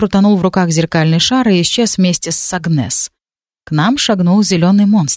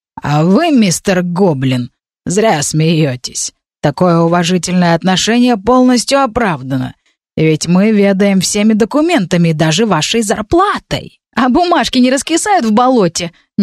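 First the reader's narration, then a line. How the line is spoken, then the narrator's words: Nervous snort. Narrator (Russian): нервно хмыкнул Стайль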